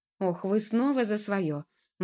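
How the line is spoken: Irritated yet fawning exclamation. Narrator (Russian): воскликнул он раздраженно, но вместе с тем заискивающе

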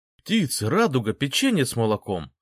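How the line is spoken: Startled exclamation. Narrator (Russian): воскликнул, встрепенувшись

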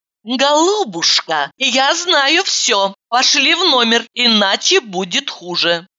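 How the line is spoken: Angry hiss. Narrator (Russian): зло прошипела

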